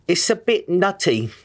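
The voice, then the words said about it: Put-on English accent. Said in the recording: “some kind of English accent ... I can say one phrase good. I've practiced this quite a bit. ... You nailed it, buddy.”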